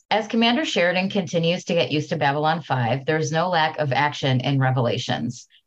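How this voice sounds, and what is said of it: Announcer-style radio voice. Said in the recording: “Let me get my radio voice ready.”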